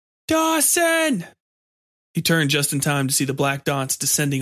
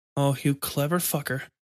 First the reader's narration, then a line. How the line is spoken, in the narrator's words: Dawson muttered